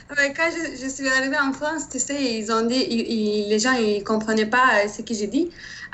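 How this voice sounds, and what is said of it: Slight Turkish accent. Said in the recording (French): “tu as un petit accent ... je viens de Turquie”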